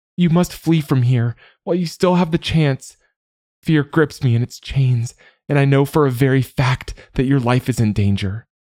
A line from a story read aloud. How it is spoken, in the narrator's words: she cried